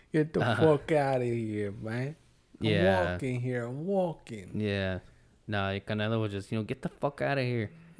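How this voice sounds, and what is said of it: Put-on New York accent. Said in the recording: “not a fucking New York accent like I just did ... That was New York.”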